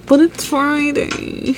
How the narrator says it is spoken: she whined

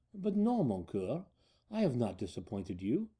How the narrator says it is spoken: a soft voice whispered in my ear

